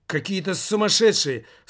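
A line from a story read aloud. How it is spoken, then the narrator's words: Angry shout. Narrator (Russian): со злостью выкрикнула она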